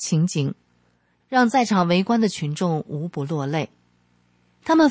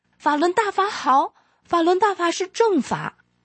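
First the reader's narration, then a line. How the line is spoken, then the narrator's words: Shouting in chorus. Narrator (Chinese): 陈运川全家人齐声高喊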